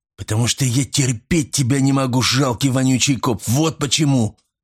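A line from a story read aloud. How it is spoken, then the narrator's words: Eerie broken hiss. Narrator (Russian): Прошипел он прерывисто, и прозвучало это жутко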